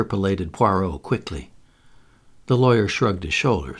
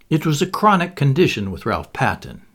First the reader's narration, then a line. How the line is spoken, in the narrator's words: he said dryly